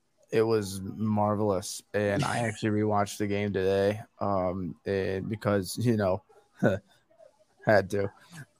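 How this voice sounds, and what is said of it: Strained, damaged voice. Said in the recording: “when you're feeling better and the voice is healed up ... I just don't want to try and have a conversation with my voice like this”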